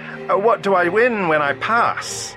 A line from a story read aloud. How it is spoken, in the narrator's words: The Doctor called out